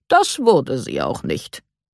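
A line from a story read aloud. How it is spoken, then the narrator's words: Calm clarification. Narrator (German): stellte Herr Kahn ruhig klar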